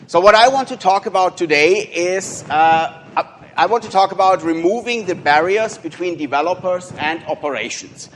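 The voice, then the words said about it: German-accented English. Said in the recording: “I'm based in Munich in Germany. And you can hear from my accent, people tell me I always sound like the bad guy in a World War II movie”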